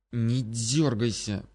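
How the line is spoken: Hissing. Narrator (Russian): прошипел ворон

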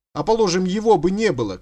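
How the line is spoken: Shouting after someone. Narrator (Russian): крикнул ему вслед Дворецкий

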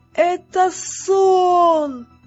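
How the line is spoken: Shouted. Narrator (Russian): закричал Роланд

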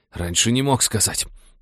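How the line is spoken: Hissing. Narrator (Russian): прошипел парень

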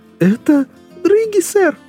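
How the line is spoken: Exclamation. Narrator (Russian): воскликнул сержант

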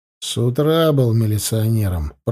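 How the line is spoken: Mumbled. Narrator (Russian): пробурчал Николаев

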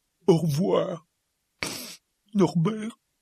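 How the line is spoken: Sobbing. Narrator (French): sanglota Hagrid

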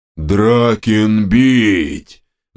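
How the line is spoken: Ogre roaring. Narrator (Russian): взревела левая голова огра

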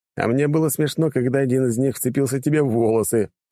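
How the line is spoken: Mocking laugh. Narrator (Russian): посмеялся я над ней

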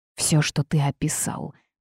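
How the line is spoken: Said through teeth. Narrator (Russian): процедила она

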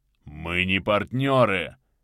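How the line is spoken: Growling. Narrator (Russian): прорычал Крий

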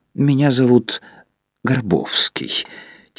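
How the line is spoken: Quiet stranger. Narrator (Russian): тихо сказал незнакомец

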